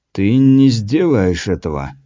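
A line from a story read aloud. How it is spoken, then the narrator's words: Low muffled voice. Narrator (Russian): глухо произнес Таракопа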